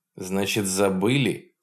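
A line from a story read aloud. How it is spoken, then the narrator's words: Angry repetition. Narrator (Russian): зло повторил Полунин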